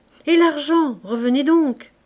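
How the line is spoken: Shouted. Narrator (French): cria Fabrice

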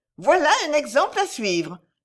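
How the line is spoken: Shouting. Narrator (French): lui cria Madame de Val-Noble

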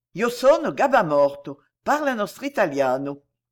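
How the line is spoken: Quick, lively. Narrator (French): dit vivement Jacques Collin

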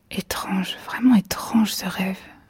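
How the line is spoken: Murmuring. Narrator (French): murmura-t-elle

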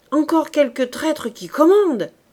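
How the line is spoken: Exclaimed. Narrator (French): s'écria le caporal

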